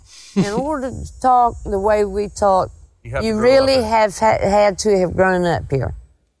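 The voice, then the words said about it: Distinctive coastal American dialect. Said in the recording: “coastal dialect. It has some features that are found nowhere else in the United States ... Is that an Irish English accent? Where are you guys from anyway? Australia or what?”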